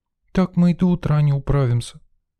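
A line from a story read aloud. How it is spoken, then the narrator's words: Dejected sigh. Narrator (Russian): тоскливо вздохнула девушка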